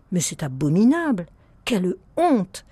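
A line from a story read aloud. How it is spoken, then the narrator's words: Woman's exclamation. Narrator (French): s'écria une femme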